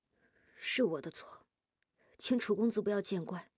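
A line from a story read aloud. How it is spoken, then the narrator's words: Hesitant, soft. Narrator (Chinese): 夜莺低着头咬住下唇许久，才轻声说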